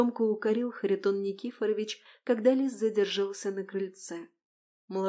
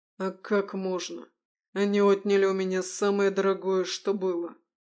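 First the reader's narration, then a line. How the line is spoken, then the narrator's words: Through gritted teeth. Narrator (Russian): Процедил сквозь зубы лис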